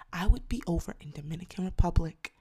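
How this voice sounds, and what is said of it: Whispering. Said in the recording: “I don't even know why I'm whispering.”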